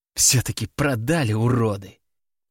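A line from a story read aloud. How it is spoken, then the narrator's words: Girl hissing through teeth. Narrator (Russian): процедила сквозь зубы девочка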